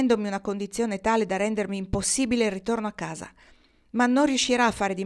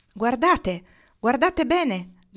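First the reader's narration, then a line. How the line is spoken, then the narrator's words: Shouting, female leader. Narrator (Italian): gridò la capostormo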